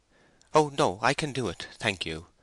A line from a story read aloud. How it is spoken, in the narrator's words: she hastily replied